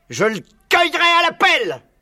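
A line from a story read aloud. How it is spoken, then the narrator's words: Barking. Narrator (French): aboyait Buns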